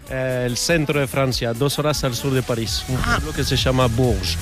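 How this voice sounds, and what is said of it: Spanish with Uruguayan-sounding French accent. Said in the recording (Spanish): “por tu acento yo diría que el día que ganó España el Mundial tú no estabas muy contento ... porque no eres uruguayo ... te falla totalmente el acento ... ya más francés”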